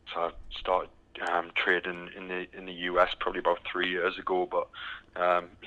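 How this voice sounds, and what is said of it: British accent. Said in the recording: “as you can tell by the accent, I'm from the from the UK ... still haven't got the Texas accent”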